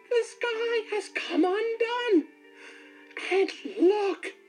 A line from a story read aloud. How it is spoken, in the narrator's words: wailed